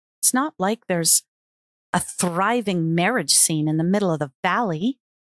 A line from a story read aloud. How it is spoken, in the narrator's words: she snarled defensively